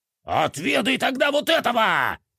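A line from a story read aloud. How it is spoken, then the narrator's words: Yelling. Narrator (Russian): вопил он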